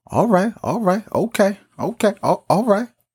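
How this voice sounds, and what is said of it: Imitates another person's voice. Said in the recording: “that's my Denzel Washington impression”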